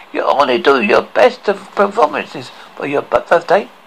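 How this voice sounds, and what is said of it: Caribbean-accented lobster character voice. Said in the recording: “the talking lobster with a Caribbean accent”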